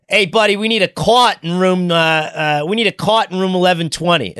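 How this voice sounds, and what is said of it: Put-on Good Will Hunting Boston accent. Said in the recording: “I'm going to butcher it. I had a better accent at the time ... Which you like gave him like the Goodwill Hunting accent?”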